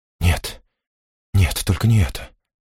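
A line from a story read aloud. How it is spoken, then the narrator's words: Whisper. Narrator (Russian): прошептала Реза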